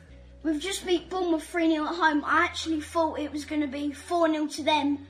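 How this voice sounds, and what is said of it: South London accent. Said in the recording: “the South London accent”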